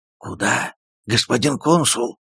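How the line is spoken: Loud frightening whisper. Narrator (Russian): громким страшным шепотом спросил

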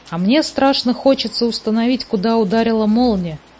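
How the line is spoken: Plain. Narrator (Russian): сказал Муми-тролль

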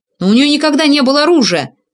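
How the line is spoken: Naive exclamation. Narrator (Russian): наивно воскликнул я

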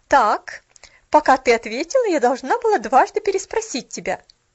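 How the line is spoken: Sharp retort. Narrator (Russian): резко бросила молодая женщина

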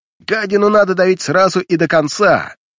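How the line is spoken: Shouting. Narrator (Russian): кричал Массагет

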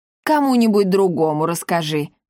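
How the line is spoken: Scoffing snort. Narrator (Russian): фыркнул Парацельс

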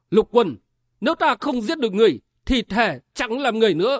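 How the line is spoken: Roar. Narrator (Vietnamese): chàng gầm lên

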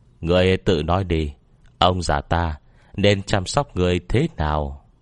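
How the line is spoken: Cold sneering. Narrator (Vietnamese): Ông cười nhạt nói

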